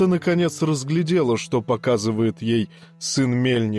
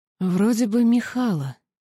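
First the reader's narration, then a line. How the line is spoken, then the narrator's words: Uncertain speech. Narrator (Russian): неуверенно проговорила она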